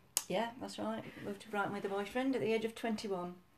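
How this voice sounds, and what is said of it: Yorkshire English accent. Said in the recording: “Yorkshire girl. Um, you can probably hear that from your accent.”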